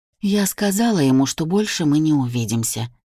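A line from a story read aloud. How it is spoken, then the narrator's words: Calm mother. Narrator (Russian): спокойно говорит мама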